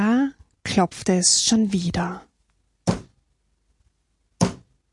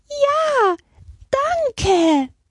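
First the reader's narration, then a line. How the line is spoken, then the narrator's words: Squeaky voices. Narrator (German): piepsten die anderen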